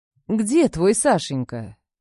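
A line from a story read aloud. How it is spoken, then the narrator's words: Deceptively gentle question. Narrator (Russian): Обманчиво ласково интересуюсь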